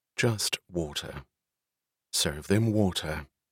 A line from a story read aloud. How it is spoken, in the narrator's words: She answered in a cool tone